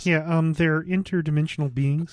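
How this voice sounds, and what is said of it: George Lucas impression, Kermit-like voice. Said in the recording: “do a George Lucas impression ... You sound like Kermit. ... So does George Lucas.”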